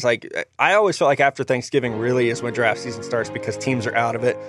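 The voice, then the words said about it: Southern American accent. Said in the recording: “my southern accent that I just learned I have”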